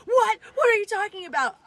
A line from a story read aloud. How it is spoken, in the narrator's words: started screaming back at her